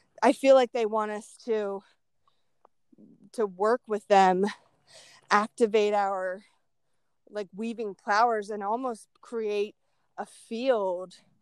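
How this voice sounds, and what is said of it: Out of breath, audible breathing. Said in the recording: “Sorry, guys, if I'm out of breath and breathing in you.”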